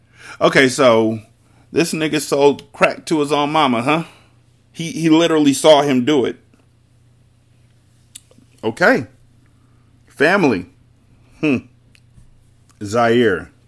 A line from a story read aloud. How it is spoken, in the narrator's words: Carter called out